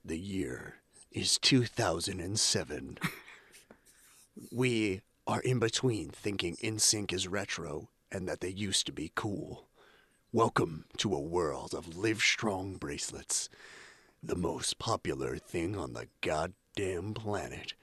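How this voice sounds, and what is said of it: Dramatic narrator voice. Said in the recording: “let me get on my narrator voice.”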